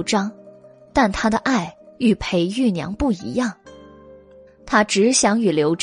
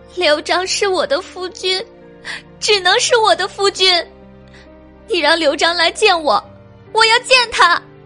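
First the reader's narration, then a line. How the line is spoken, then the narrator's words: Crying woman. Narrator (Chinese): 翠娘哭道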